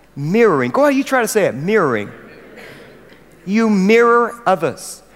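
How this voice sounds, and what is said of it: American accent. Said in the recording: “I don't say this word well at all. It's my American accent”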